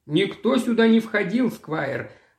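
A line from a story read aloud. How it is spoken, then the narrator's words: Old man, rough muffled voice. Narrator (Russian): ответил старик своим грубым приглушенным голосом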